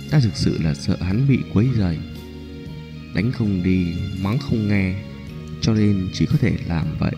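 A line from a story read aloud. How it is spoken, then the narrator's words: Soft, embarrassed. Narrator (Vietnamese): khuôn mặt Nhã Phi ửng đỏ, nói khẽ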